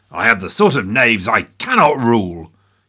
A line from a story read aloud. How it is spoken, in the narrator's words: growl